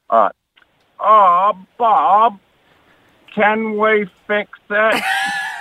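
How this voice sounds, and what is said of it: Bob the Builder impersonation. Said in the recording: “I've got the crawl off Bob the Builder. I do the best impersonation.”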